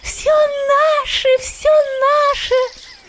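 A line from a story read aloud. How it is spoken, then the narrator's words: Squeaking. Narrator (Russian): Они пищали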